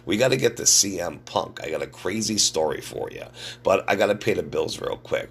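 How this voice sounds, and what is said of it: Sick-sounding voice. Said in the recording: “you can hear it in my voice. I'm a little sick”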